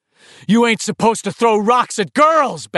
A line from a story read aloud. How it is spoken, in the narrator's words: Ben shouted